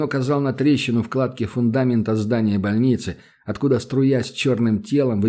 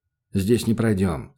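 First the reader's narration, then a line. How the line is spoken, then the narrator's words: Plain. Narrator (Russian): сказал Данил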